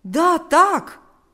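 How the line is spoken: Surprised exclamation. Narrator (Russian): воскликнул Павел, немало удивившись

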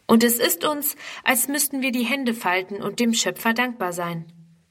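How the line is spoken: Plain. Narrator (German): sagt die Mutter

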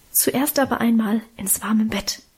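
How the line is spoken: Mother whispering. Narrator (German): flüsterte Mutter

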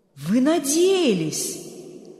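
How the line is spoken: Stunned exclamation. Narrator (Russian): ошеломленно воскликнул Берг

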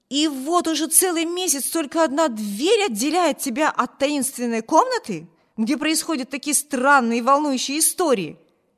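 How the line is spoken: Exclaimed. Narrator (Russian): воскликнул Виберт

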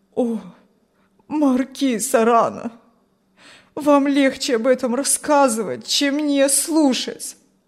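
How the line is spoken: Pleading old man. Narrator (Russian): взмолился старик

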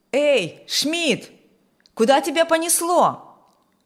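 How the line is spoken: Loud call. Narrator (Russian): Громко окликнул бригадир

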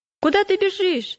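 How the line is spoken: Shouting. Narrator (Russian): закричал Упрямый

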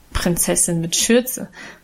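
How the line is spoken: Good-natured mocking laughter. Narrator (German): spottete Guste gutmütig lachend

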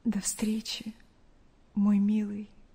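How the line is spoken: Quiet. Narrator (Russian): тихо сказала

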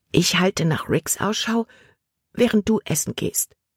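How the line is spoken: Whispered. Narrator (German): flüsterte Libby Caleb zu

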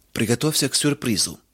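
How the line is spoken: Solemn. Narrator (Russian): торжественно произнес он

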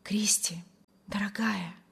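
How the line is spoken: Rapturous whisper. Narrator (Russian): восторженно шептал Вильям

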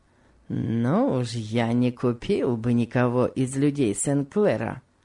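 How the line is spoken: Plain. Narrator (Russian): сказал первый

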